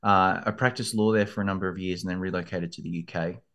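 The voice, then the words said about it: Australian accent. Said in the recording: “I grew up in Australia, as you can probably hear from the accent.”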